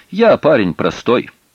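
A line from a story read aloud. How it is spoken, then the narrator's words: Snapping retort. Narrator (Russian): огрызнулся Пашка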